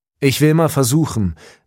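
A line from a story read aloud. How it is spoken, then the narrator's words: Man calling while leaving. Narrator (German): rief der Mann schon im Weggehen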